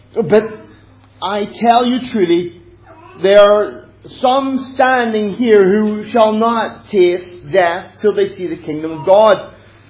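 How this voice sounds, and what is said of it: Noticeable accent. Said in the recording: “forgive the accent if you don't understand”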